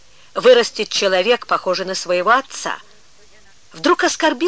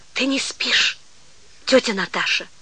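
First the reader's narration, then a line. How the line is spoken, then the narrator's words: Sudden whispered question. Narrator (Russian): шепотом спросила вдруг она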